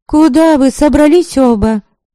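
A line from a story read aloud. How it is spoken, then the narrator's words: Loud alarmed call, dread. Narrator (Russian): В полный голос тревожно окрикнула, с холодом в груди, понимая, что уже знает ответ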